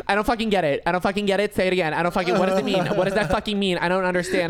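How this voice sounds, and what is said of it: Exaggerated Long Island accent. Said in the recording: “I love your impression of your sister... That's exactly how she fucking sounds... She just sounds like a Kardashian from Long Island. That's what I make her sound like.”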